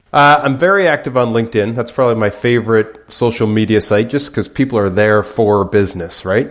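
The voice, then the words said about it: Canadian accent. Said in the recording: “is from Canada and lives out there. It's a cool accent.”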